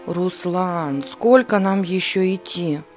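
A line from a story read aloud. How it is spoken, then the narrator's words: Tired, out of breath. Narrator (Russian): устало произнес Борис, едва поспевая за крепким черноволосым мальчиком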